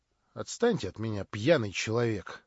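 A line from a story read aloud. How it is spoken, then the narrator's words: Muttered. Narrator (Russian): пробормотал Ставрогин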